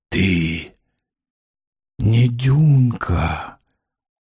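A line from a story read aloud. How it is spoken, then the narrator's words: Muffled dull voice. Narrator (Russian): сказал он глухо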